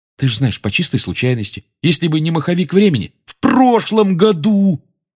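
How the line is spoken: Almost shouting. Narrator (Russian): Рон почти кричал

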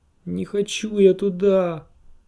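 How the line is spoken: Whining. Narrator (Russian): заскулил пирожок

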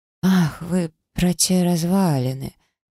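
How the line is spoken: Hoarse, dry-mouthed rasp. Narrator (Russian): прохрипела я, облизав пересохшие губы

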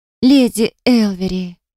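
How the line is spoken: Exclaiming. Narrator (Russian): воскликнула я

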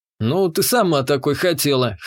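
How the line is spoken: Snort. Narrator (Russian): хмыкнул я

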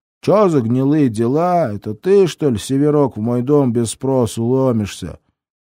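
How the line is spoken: Booming voice. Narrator (Russian): прогудел Север

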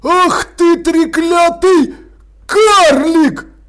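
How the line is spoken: Angry yelling. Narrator (Russian): заорал он

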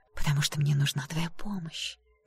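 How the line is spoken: Whispering. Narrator (Russian): прошептала Ева

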